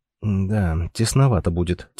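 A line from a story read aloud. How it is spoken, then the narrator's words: Quiet. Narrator (Russian): тихо проговорил он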